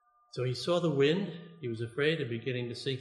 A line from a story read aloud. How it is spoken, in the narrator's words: he cried out